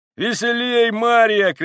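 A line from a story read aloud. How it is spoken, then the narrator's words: Woman shouting. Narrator (Russian): кричала она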